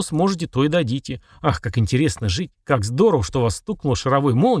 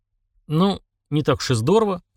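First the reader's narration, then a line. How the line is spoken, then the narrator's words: Scoffing grunt. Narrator (Russian): хмыкнул Влад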